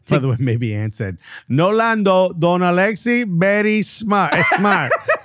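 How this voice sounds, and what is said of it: Imitation of Pochettino's accent. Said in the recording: “perfect Pochettino accent”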